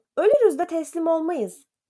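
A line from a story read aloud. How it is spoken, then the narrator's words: Shouted. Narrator (Turkish): diye bağırdı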